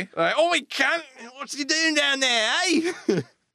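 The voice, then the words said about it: Put-on Australian accent. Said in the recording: “they have Australian accents... That was perfect. That was the perfect Australian accent.”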